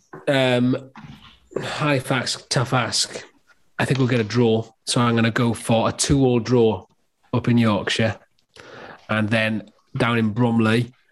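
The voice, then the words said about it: Put-on regional English accent. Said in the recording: “I don't know why I'm doing these accents ... It's a really good accent. That really was not a Bromley accent either”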